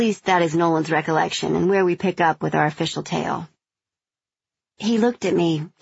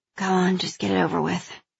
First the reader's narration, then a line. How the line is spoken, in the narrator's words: I mumbled